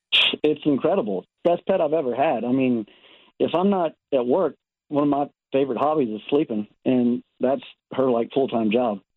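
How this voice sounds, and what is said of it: Slight Texas accent. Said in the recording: “I detect a bit of an accent ... I'm originally from Texas.”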